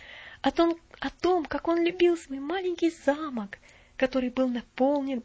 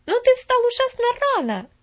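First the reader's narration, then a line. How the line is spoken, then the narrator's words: Exclaimed. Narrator (Russian): воскликнула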